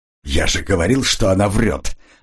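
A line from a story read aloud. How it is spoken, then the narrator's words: Irritated. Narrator (Russian): раздраженно сказал он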